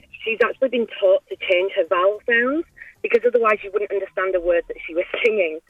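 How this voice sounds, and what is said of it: Strong UK accent. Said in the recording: “I come from the UK and I have a very strong accent”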